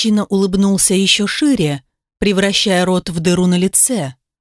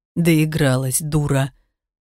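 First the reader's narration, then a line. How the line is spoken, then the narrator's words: Hissed. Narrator (Russian): прошипел тот, что был ближе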